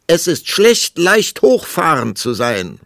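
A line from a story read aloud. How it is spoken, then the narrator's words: Called after, insistent. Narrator (German): rief die Königin ihm nach, denn sie war entschlossen, das letzte Wort zu behalten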